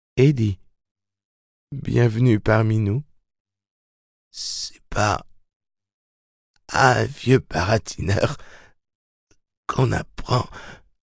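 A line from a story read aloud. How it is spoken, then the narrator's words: Whispering. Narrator (French): chuchota-t-il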